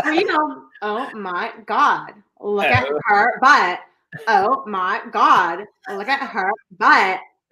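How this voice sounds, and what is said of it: Put-on Valley Girl accent. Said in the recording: “In an LA accent. I love it. ... See, we have Valley Girl accent out here.”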